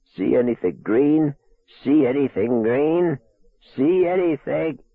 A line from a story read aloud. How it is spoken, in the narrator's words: The voice cracked and rose and whined into a shrill, senile treble